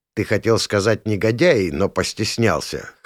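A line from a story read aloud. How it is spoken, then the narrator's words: Smirking snort. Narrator (Russian): хмыкнул я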